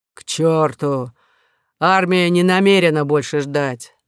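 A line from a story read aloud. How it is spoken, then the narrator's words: Growled. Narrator (Russian): зарычал маршал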